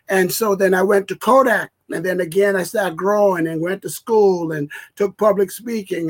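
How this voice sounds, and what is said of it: Heavy non-native accent. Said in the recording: “with my heavy accent ... not to eliminate my accent. That's part who I am.”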